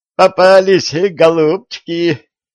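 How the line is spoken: Gleeful giggle. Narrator (Russian): радостно хихикнул

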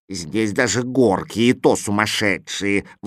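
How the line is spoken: Grumbling. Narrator (Russian): ворчал Кузя

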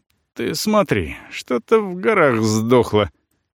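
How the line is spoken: Muttering father. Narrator (Russian): бормочет на это отец

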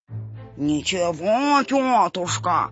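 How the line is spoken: Nasal. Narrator (Russian): прогнусавил Сапель Чихалыч

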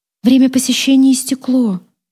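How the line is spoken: Sad tone. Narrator (Russian): сказала она грустным тоном

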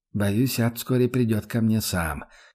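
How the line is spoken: Barely audible. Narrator (Russian): уже чуть слышно проронил Рудольф

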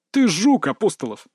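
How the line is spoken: Snorting. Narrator (Russian): фыркнул Салтыков

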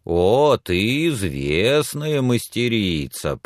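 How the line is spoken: Drawling. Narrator (Russian): протянул он

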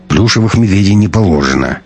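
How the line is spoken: Curt, through gritted teeth. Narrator (Russian): процедил проверяющий

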